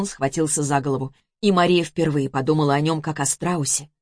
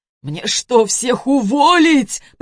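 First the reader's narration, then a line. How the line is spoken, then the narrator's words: Groan. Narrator (Russian): простонал Антон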